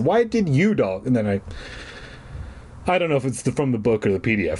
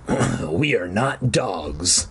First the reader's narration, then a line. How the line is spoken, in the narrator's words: the voice growled